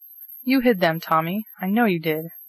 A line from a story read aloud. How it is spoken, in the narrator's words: cried the outraged hostess